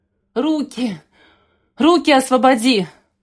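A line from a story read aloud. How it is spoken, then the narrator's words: Hoarse wheeze. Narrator (Russian): прохрипела Ксения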